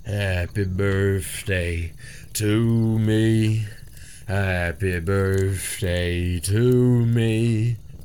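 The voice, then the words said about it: Soft, hoarse, miserable singing. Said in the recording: “They began to sing, softly, hoarsely, miserably.”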